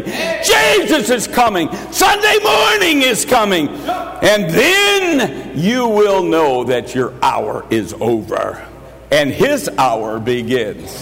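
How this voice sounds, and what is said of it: Raised, booming preacher voice. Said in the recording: “Just as sure as I raise my preacher voice this morning.”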